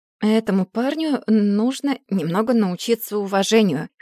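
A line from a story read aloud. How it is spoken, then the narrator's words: Hoarse mutter. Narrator (Russian): хрипло пробормотал Оливер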